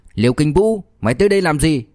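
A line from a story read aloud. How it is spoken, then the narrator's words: Furious loud shout. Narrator (Vietnamese): lửa giận trong lòng liền bốc lên đầu, căm tức lớn tiếng quát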